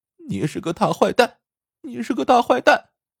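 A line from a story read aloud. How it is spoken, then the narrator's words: Sobbing child. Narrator (Chinese): 小男孩见足球被踢飞了，伤心的大哭起来，一边呜呜的说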